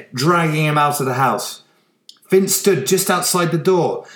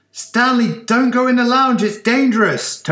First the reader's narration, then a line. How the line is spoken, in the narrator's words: Toby shouted